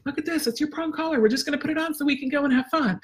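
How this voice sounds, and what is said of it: Excited, upbeat tone of voice. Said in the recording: “I'm going to use that excited tone of voice.”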